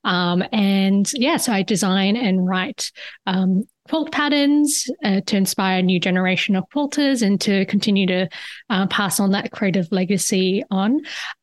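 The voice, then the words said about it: Australian accent. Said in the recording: “You could probably hear it in my voice. I'm actually originally from Perth, Australia.”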